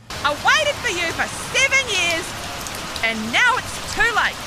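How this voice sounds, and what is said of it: New Zealand accent, rising sentence endings. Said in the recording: “number one is New Zealand ... grabbed some New Zealanders ... remastered with the world's sexiest accent ... they sound surprised. Like, everything in New Zealanders sounds surprised because they end their sentence up like it's a question”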